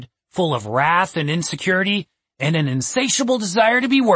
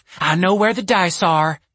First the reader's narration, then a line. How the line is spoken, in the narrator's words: Stacy blurted out